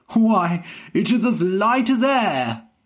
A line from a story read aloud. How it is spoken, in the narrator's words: the king cried